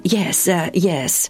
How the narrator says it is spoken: the man from Sidon said rather uneasily

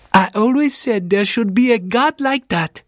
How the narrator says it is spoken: she exclaimed

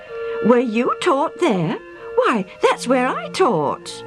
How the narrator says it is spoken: The older man exclaimed

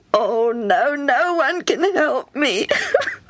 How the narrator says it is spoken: Hammy sobbed

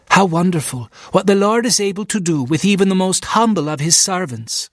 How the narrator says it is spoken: she exclaimed

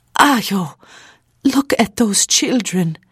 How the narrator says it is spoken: Mary suddenly exclaimed

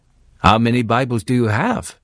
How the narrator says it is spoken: asked

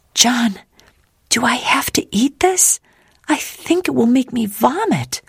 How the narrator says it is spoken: she whispered

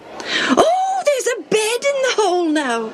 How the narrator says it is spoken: someone shrieked from below

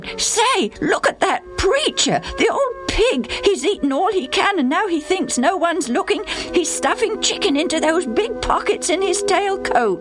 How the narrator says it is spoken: Suddenly, Bill exclaimed

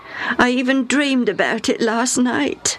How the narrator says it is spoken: Hammy said sadly

